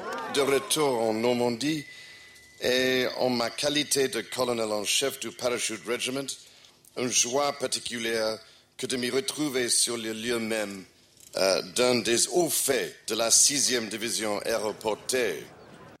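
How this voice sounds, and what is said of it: English-accented French. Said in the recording (French): “il a quand même un moins bon accent que sa mère”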